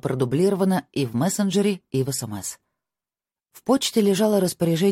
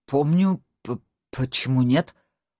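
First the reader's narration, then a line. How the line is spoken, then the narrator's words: Stuttering. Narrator (Russian): Он, оказывается, заикался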